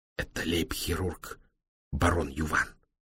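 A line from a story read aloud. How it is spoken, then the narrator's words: Respectful whisper. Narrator (Russian): почтительно шепнул Демулен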